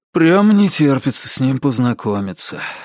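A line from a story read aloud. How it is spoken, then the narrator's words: Sighing. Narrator (Russian): вздохнул Ричард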